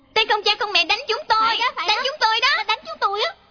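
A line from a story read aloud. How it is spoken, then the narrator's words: Children shouting. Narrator (Vietnamese): mấy trẻ kia, chúng la lên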